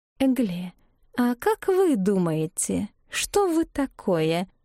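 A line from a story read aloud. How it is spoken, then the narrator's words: Insinuating question. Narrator (Russian): вкрадчиво спросила сухощавая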